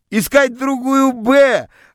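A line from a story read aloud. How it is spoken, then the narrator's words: Joyful shouting. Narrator (Russian): радостно кричали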